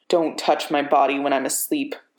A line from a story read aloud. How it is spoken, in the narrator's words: Bucky hisses